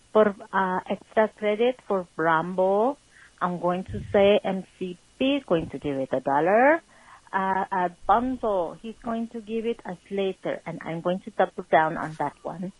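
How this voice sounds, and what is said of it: Puts on an accent. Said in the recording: “you thought no accent from me from this one tonight, but you thought wrong”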